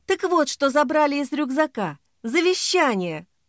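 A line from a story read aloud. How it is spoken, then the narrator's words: Exclamation. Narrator (Russian): воскликнула Ксения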